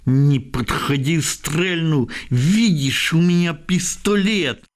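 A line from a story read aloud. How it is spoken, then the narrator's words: Shouted, almost hissed. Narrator (Ukrainian): дівчина пляма закричала, а швидше зашипіла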